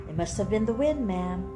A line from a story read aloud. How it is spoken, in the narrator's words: said smoothly, too smoothly